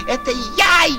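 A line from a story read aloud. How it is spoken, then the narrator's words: Frog shouting at full strength. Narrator (Russian): лягушка не выдержала и, забыв всякую осторожность, закричала изо всей мочи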